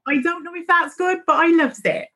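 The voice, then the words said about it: Exaggerated put-on Devon accent. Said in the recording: “I don't think that I sound particularly Devon, but it comes up sometimes in our conversations, and the accent turns a little bit like this... I love my Devonshire accent... our accents turn a little bit like this”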